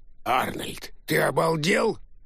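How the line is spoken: Growl. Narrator (Russian): рыкнул молчавший до сих пор дядя Сол

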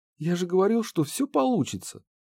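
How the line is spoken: Squeaky voice. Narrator (Russian): пропищал комендант

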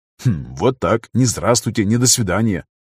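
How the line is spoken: Muttering to himself. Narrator (Russian): хмыкнул Виктор про себя

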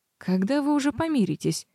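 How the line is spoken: Tired question. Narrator (Russian): спросила я устало

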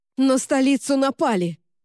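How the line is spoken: Shouted. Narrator (Russian): крикнула капитан

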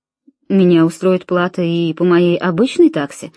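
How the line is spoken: Plain. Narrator (Russian): сказал доктор

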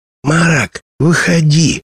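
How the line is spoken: Loud whisper. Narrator (Russian): громким шепотом позвала Шаллах

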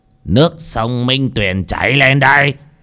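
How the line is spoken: Commanding shout. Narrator (Vietnamese): Một âm binh quát

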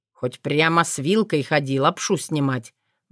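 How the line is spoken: Grumbling. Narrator (Russian): ворчал он

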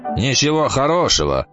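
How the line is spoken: Grumbled. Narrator (Russian): проворчал зонтик

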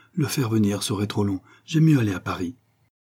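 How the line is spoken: Exclaimed. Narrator (French): s'écria Baccarat

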